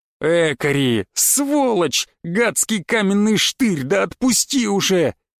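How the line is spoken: Inner howl. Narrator (Russian): мысленно взвыл я

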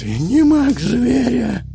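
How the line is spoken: Hoarse wheeze. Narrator (Russian): прохрипел Дорат

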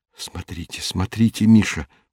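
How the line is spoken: Whisper. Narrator (Russian): прошептал профессор

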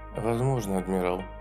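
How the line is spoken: Quiet. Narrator (Russian): тихо сказала

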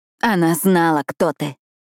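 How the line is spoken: Hoarse, strained voice. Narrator (Russian): Хрипло, с надрывом проговорила Пиппа

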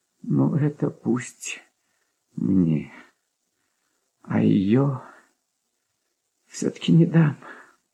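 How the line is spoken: Quiet. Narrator (Russian): тихо проговорил он наконец

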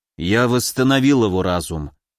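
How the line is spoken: Tired. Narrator (Russian): Тимур устало сказал

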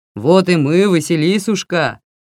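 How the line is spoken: Booming bass. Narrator (Russian): раскатистым басом сказал бородатый

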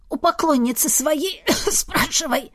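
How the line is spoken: Hoarse rasp. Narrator (Russian): прохрипела

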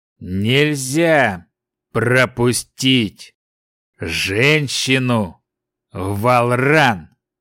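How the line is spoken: Frowning giant, through teeth. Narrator (Russian): процедил нахмурившийся великан

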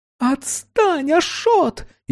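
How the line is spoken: Hysterical female shriek. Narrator (Russian): истерично взвизгнула женщина

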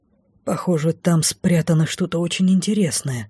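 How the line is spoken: Muttering. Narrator (Russian): пробормотал Лей

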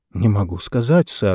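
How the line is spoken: Strained, forced words. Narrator (Russian): выдавил

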